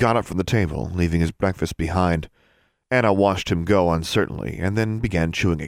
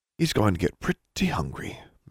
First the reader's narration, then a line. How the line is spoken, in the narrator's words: murmured Darla with an amused look